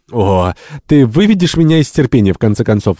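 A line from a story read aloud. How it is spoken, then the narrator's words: Exclaiming. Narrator (Russian): воскликнула Джавита Фоли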